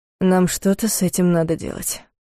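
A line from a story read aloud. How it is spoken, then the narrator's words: Muffled. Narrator (Russian): произнес глухо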